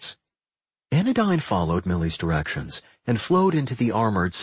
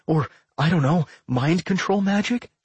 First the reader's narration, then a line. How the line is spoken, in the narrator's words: She begged